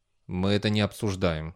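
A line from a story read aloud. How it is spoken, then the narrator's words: Gruff grumble. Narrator (Russian): буркнул Бейли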